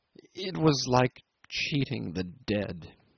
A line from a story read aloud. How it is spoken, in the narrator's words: he stammered